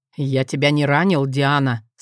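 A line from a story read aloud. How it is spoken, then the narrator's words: Hoarse question. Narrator (Russian): спросил Максимус, сипло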